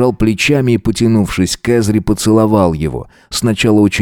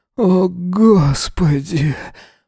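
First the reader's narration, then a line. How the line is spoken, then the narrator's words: Groaning, barely controlled. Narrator (Russian): Простонал он, слабо себя контролируя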